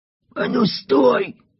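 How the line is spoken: Hoarse wheeze. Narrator (Russian): прохрипел Рвигель

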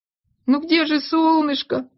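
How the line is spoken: Whining. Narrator (Russian): хныкал он

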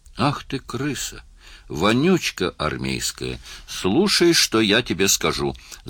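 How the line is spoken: Stammering, creaky. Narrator (Russian): запинаясь, проскрипел он

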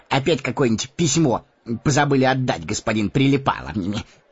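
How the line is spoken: Snide question. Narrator (Russian): ехидно спросил Мэри

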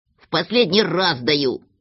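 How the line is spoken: Grumbled. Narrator (Russian): проворчал Козлик

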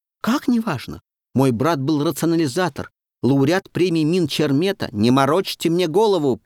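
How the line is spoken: Sharp scolding shout. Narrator (Russian): прикрикнул администратор

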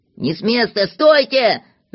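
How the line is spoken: Shouting. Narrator (Russian): закричал Знайка

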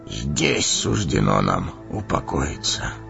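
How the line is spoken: Hollow, muffled. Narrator (Russian): глухо проговорил Денетор

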